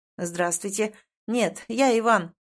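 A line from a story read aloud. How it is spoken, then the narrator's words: Breathless low voice. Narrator (Russian): запыхавшимся низким голосом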